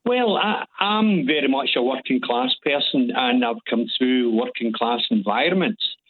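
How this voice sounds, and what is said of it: Glaswegian accent. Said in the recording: “your accent ... I'm a Glaswegian”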